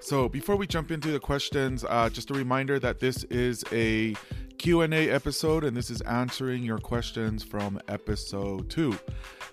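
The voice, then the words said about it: Slightly hoarse voice. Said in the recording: “I got my voice back, and you can still hear a little hoarseness”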